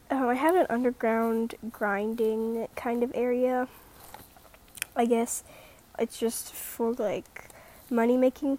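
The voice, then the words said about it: Quiet, raspy voice. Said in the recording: “sorry I'm talking really quietly. My voice is kind of like raspy probably too, because my throat's kind of dry”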